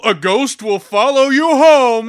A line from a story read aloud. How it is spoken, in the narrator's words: I yell